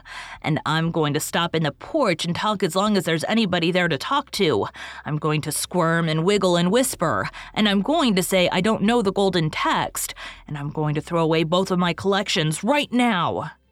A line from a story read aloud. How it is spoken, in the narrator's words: announced triumphantly